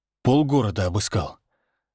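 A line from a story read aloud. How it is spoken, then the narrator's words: Breathed out. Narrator (Russian): выдохнул Всеволод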